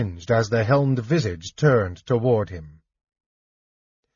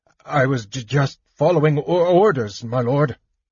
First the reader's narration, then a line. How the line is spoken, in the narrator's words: he stuttered, shaking like a goblin